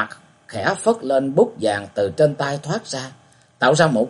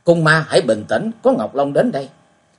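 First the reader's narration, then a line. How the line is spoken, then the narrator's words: Loud shouted call. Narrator (Vietnamese): lớn tiếng hét hỏi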